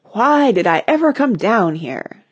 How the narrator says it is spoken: asked dramatically

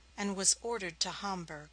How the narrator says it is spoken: he groaned

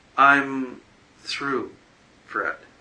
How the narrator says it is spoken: she said slowly

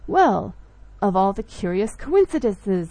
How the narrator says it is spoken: I exclaimed

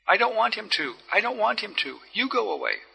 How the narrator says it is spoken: cried the girl

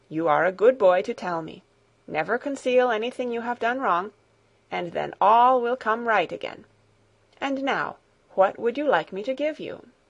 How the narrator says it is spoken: answered kindly

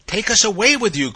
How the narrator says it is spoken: cried those four garrulous poppies

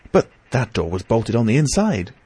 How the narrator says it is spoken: cried

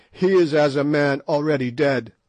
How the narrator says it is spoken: the proud ones who tossed their spears and cried

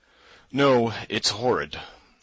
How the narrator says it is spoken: yawned again

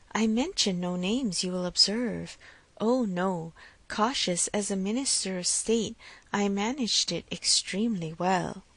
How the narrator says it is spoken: she added in half a whisper

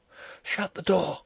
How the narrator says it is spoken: she whispered

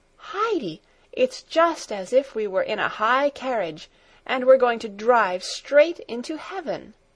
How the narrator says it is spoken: she exclaimed in delight

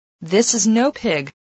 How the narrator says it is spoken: said

